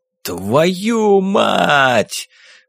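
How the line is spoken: Roar. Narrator (Russian): взревел Эштон Гир

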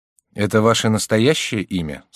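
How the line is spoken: Plain. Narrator (Russian): спросил Ка

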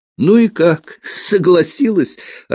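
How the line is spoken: Loud laughter. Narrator (Russian): расхохотался лейтенант

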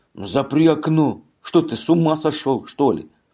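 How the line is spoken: Angry. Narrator (Russian): сердито сказал

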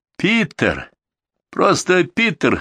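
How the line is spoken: Cheerful, pleased correction. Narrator (Russian): весело поправил Ян, обрадованный, что Террон и его друг оказываются знакомы

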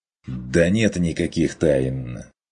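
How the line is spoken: Irritated dismissal. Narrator (Russian): раздраженно отмахнулся охотник

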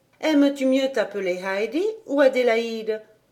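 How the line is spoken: Plain. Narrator (French): demanda Clara

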